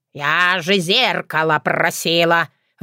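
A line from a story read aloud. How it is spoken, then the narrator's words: Puzzled grumble. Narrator (Russian): в недоумении проворчала я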